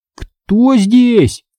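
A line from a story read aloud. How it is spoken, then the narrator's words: Shouted a bit louder. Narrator (Russian): крикнул я чуть громче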